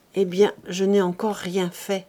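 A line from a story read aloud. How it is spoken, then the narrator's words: Plain. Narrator (French): répondit-il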